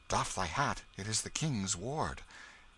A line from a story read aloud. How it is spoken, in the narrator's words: whispering one to another